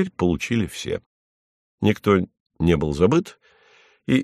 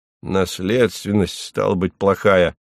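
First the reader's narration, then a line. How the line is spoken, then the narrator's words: Grumbling. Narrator (Russian): проворчал Хлебоводов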